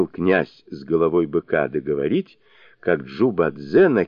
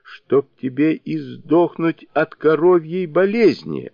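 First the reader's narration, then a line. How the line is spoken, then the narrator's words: Yelling. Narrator (Russian): орал он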